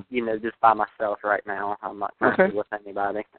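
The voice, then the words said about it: Southern American accent. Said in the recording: “He's got that sexy Southern accent”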